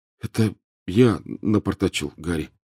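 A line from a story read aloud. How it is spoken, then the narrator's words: Glum admission. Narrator (Russian): уныло признал Рон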